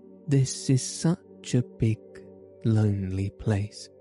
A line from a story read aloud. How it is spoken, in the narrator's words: she said slowly, as if she were turning matters over in her mind